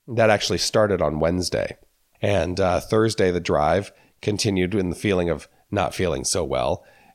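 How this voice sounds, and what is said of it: Slightly sick, under-the-weather voice. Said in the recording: “I'm sure you can hear in my voice that I am a little under the weather”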